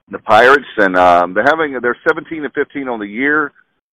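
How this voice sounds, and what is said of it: Imitating another broadcaster's voice. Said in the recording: “I'm trying to be doing my best Bubba impersonation.”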